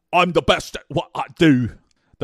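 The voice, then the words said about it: Conor McGregor impression. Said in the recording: “I'll try to do a Conor voice.”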